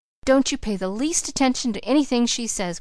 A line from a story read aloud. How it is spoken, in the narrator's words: cried Polly